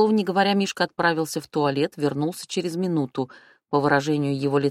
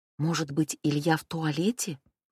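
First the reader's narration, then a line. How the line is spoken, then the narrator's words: Whisper. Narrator (Russian): прошептала я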